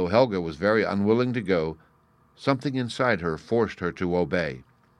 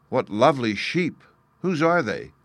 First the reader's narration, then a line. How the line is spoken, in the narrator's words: cried Helga